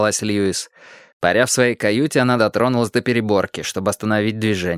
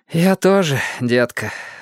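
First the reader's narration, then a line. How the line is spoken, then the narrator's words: Sighed. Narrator (Russian): вздохнул Льюис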